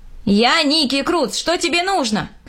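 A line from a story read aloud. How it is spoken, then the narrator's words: Shouting. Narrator (Russian): крикнул я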